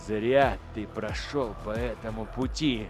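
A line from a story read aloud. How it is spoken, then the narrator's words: Through gritted teeth. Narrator (Russian): процедил Эйдолон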